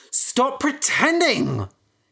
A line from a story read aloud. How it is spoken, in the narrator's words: he cried